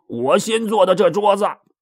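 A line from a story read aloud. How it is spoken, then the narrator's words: Shouting. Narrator (Chinese): 那个嚷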